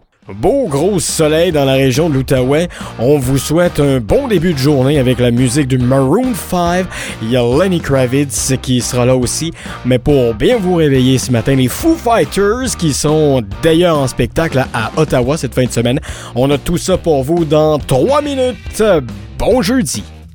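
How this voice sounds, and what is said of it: Imitates a morning radio host. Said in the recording (French): “Marc qui est debout, qui parle dans un micro pour annoncer les prochaines chansons ... je vais vous faire une imitation. L'imitation sera pas à la hauteur”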